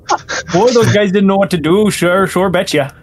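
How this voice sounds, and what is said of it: Put-on Midwestern American accent. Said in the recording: “I don't know why I'm devolving into a Midwestern accent.”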